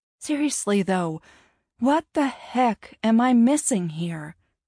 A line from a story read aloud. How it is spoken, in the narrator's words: Lily sighed